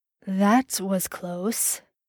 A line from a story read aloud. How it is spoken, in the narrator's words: Dean murmured in his ear